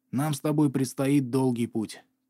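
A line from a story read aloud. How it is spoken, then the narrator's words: Whisper. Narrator (Russian): прошептал он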